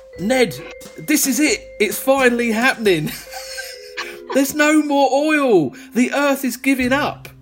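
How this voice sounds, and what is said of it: Put-on Essex accent, slightly London. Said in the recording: “your Essex accent ... it'll be slightly London”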